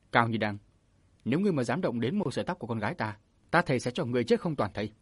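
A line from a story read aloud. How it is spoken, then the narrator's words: Angry shout. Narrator (Vietnamese): Châu Bách Long tức giận quát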